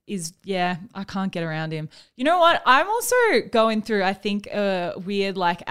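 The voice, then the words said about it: Australian accent. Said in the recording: “I'm talking in an Australian accent now”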